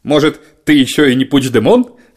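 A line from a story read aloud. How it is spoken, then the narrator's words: Chuckling. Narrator (Russian): хохотнул премьер-министр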